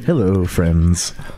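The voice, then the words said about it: Smooth radio announcer voice. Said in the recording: “The best radio voice.”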